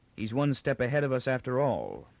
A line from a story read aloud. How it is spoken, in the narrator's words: Captain Pritcher said icily